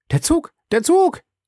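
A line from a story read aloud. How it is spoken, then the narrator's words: Called out. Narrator (German): rief er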